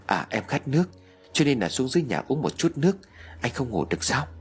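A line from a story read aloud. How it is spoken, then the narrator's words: Soft reply. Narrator (Vietnamese): Trinh liền khẽ đáp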